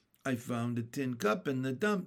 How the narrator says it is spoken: said Jesse

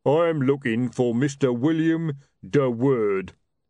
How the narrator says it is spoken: rumbled a voice above them

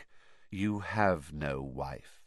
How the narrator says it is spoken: said the cold voice, very quietly

